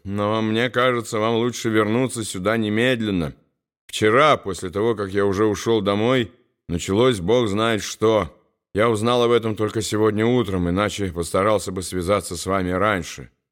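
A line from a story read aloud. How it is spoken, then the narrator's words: Weary. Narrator (Russian): устало сказал Уолтер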